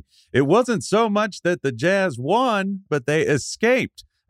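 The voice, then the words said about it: Bob Costas impression. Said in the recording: “that Bob Costas impression”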